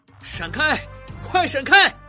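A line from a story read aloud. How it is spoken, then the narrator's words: Desperate shout. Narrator (Chinese): 开车的人拼命叫他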